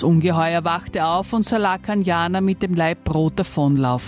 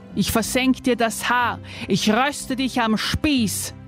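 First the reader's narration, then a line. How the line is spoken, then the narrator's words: Roared. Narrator (German): brüllte es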